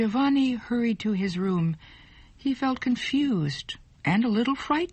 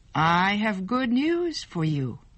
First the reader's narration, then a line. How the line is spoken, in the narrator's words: she said